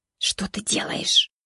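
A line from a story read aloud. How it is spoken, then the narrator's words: Hissed. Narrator (Russian): прошипел он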